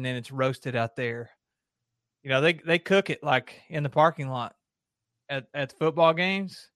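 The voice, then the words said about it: Strong regional accent. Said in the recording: “I have pretty bad accent”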